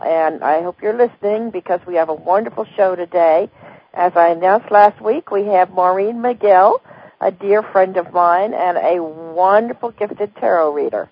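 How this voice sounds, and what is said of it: Hoarse, croaky voice. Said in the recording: “I'm still got my laryngitis, so I may be croaking now and again ... My voice goes out.”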